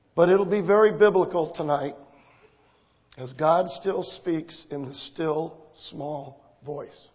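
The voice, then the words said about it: Weak, mostly lost voice. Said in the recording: “As you can tell, I have lost my voice.”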